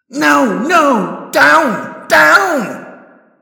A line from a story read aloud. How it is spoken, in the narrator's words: I could practically hear him screaming